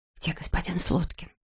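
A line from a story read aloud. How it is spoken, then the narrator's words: Whispered question. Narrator (Russian): шепотом спросила она сестру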